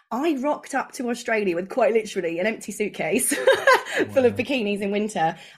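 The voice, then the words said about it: English accent. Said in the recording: “you can probably tell by my accent, I'm a POM”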